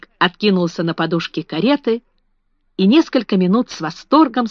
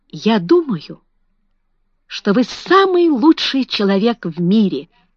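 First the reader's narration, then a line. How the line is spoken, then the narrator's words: Exclamation. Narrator (Russian): воскликнул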